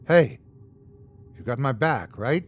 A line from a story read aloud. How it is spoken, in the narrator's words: I whispered